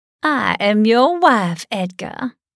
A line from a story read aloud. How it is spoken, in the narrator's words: cackled